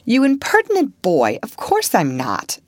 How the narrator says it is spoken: exclaimed Sally, with an air that proved the contrary

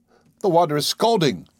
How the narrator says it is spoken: I cried

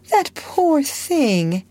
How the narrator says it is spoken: cried Sarah softly when she saw her

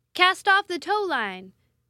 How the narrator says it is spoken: shouted Christie at the top of his lungs

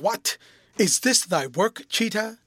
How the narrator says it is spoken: a voice behind him that he instantly recognized as that of Hase exclaimed

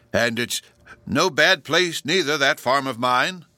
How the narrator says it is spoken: cried the old man, cheerily, as if there was something positively delightful in the prospect

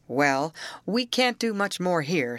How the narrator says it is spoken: said Mr

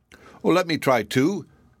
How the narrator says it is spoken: cried the prince

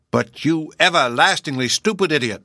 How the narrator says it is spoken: shouted Mr

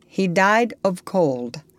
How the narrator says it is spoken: said Long Arrow

